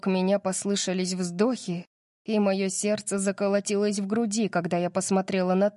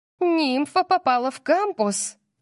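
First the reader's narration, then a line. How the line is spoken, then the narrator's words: Squeal. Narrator (Russian): Кайли взвизгнула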